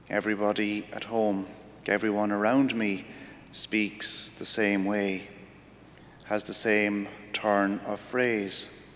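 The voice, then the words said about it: Irish accent. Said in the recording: “They tell me I'm from Ireland because of my accent”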